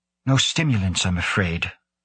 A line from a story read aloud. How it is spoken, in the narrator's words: Lane said in a hushed voice